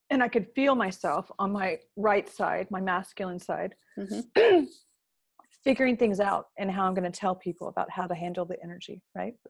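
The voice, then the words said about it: Strained, failing voice. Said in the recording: “sorry about my voice. It's starting to go.”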